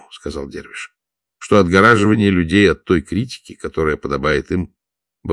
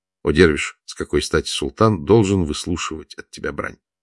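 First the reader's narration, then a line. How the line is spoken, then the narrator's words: Gentle. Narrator (Russian): сказал мягко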